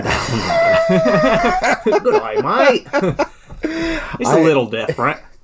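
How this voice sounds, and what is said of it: Put-on Australian accent. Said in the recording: “I am not good at accents ... pretty good Australian ... I wasn't going for Australian. I was trying New Zealand. ... it was Australian, but it's okay. You did good Australian.”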